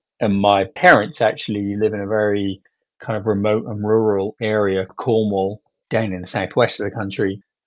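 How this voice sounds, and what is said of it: British accent. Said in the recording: “you can hear from my accent that that's where I grew up ... I was actually in the UK”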